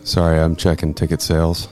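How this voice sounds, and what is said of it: Deep, sexy low voice. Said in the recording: “that is a deep, sexy voice”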